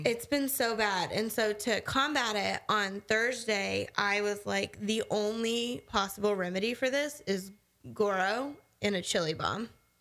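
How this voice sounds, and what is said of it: Slightly congested, stuffy voice. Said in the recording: “you can still kind of hear it in my voice, I have been just like dying from my allergies”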